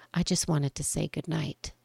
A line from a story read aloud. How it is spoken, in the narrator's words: murmured softly in my ear